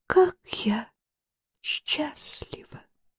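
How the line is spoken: Very quiet. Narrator (Russian): Тихо-тихо вымолвила она

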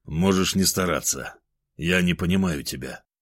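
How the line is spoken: Calm reply. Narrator (Russian): спокойно ответил я

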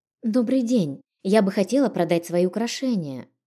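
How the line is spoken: Timid. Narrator (Russian): робко произнесла

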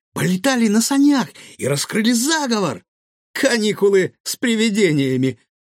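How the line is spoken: Pleased giggle. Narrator (Russian): довольно хихикнул Гаврош

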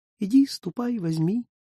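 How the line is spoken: Soft birdlike whistling. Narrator (Russian): соловей тихонько насвистывал

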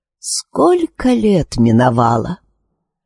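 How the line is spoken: Heavy sigh. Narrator (Russian): с этими словами она тяжело вздохнула

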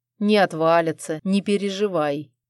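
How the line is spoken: Amused snorting reply. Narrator (Russian): хмыкнул он в ответ

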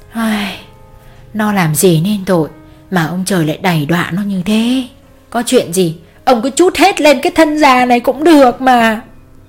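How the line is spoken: Sighing old woman. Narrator (Vietnamese): Bà thở dài hắt ra rồi nói

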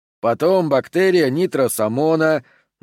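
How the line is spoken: Deliberately droning fat man. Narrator (Russian): нарочито нудным голосом продолжил толстяк

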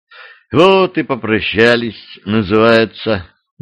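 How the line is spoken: Sighing. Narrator (Russian): вздохнула Юля

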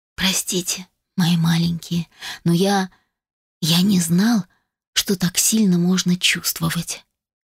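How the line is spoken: Whisper. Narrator (Russian): прошептал

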